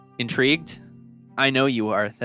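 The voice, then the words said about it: Mysterious, dramatic voice. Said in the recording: “I said it in a very mysterious voice”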